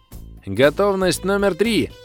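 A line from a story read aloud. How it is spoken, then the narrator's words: Cheerful shout. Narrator (Russian): весело крикнул консультант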